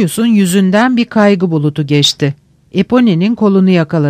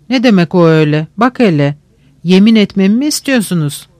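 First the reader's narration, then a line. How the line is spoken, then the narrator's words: Laughing. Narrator (Turkish): güldü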